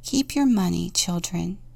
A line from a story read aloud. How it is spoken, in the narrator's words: he said softly